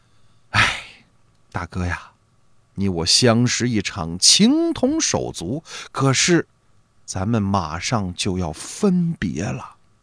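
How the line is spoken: Sighing. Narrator (Chinese): 王六郎突然叹了口气

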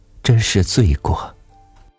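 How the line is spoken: Sighing woman. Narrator (Chinese): 一关的妈妈叹气说

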